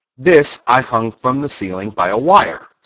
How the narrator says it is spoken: said Oz

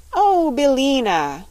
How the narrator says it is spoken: cried Dorothy in a glad voice

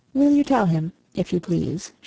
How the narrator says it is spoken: she said

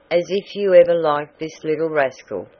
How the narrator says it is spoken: cried Mr

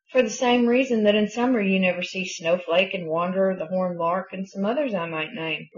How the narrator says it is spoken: replied Snipper

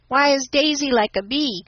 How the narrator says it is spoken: cried Nat

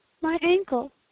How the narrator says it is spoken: gasped Anne

